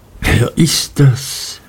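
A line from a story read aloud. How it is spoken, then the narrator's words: Whispered aside. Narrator (German): flüsterte Martha mir zu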